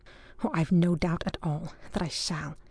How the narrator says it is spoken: said Lord Aveling under his breath

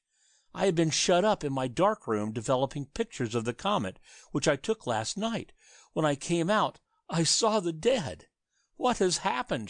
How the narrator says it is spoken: cried again

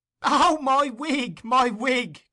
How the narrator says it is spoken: cried Master Charlie Bates, from whose lungs the laughter had proceeded

